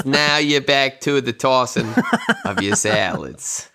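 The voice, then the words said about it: Put-on New Jersey accent. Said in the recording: “I don't know why I did that accent. ... Like a nice New Jersey accent for the tossing of the salads.”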